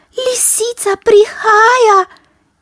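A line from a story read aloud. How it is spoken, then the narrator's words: Mouse squeaking. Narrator (Slovenian): je zacvilila miška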